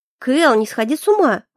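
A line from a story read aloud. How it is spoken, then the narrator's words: Indignant snort. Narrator (Russian): возмущенно фыркнула я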